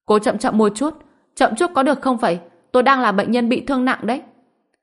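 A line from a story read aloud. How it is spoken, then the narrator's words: Pained cry. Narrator (Vietnamese): Dương Đông suýt xòa, đau đớn hét lên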